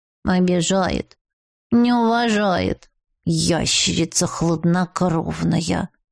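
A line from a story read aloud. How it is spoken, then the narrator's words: Grumbling. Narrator (Russian): бурчала одуванчик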